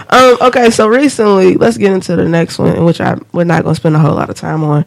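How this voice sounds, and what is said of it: Sick-sounding voice. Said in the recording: “I'm sick. You can hear it in my voice. I'm sick as shit.”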